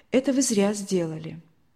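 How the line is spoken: Sad. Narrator (Russian): так печально сказала

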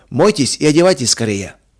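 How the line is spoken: Calm and loud. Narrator (Russian): сказал он спокойно и громко

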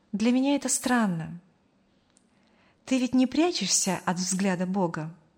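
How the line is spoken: Thoughtful. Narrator (Russian): задумчиво проговорила

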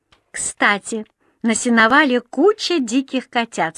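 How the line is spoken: Plain. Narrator (Russian): сказала Дженни

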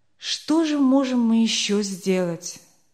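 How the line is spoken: Dejected question. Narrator (Russian): спросил Ланкенстер уныло

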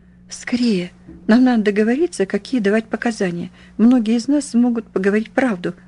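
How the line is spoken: Hoarse. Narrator (Russian): прохрипела

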